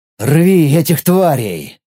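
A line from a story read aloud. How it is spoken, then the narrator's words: Growled silently in thought. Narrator (Russian): мысленно прорычал я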